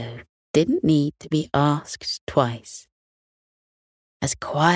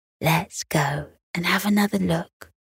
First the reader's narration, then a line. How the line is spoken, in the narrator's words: Beth turned to Theo and whispered